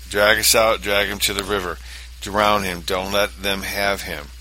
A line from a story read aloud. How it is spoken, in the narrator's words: she cried to her friends